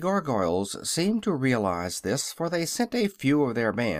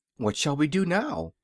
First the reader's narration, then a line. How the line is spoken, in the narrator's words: asked Dorothy anxiously